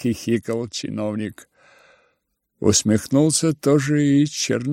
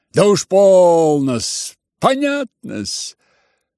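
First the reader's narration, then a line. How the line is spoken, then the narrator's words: Cheerful agreement. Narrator (Russian): весело поддакнул чиновник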